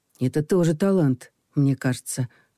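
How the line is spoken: Soft speech. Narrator (Russian): мягко произнес Саша

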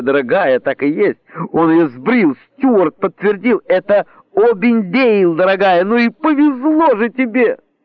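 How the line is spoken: Gurgling. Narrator (Russian): Донесся очередной взрыв хохота, сквозь который миссис Диллингтон Блик пробулькала что-то вроде

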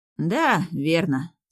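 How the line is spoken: Sorrowful sigh. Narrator (Russian): сокрушенно вздохнул

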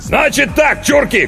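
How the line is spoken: Shout. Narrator (Russian): крикнул он

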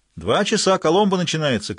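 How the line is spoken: Driver shouting. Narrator (Russian): крикнул кто-то из водителей

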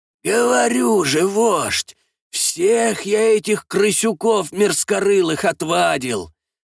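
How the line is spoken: Rattling, hoarse voice nearby. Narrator (Russian): Раздается голос из пещеры буквально в шаге от входа в это помещение, дребезжащий и хриплый

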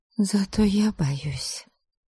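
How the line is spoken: Barely audible. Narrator (Russian): чуть слышно проговорила

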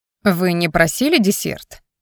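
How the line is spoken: Offended, angry young man. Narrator (Russian): обиделся парень и сердито добавил

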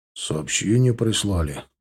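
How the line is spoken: Flat mutter. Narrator (Russian): буркнул Леня безэмоционально

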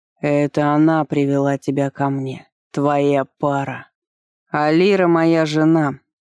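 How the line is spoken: Through gritted teeth. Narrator (Russian): процедил Вардер

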